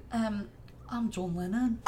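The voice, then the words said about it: Attempted Scouse accent, sounds Birmingham. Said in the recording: “Can you do it in your best Scouse accent? ... They're not from fucking Birmingham.”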